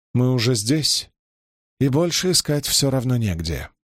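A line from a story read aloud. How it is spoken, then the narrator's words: Practical matter-of-fact tone. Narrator (Russian): ответила Берлейн очень практичным тоном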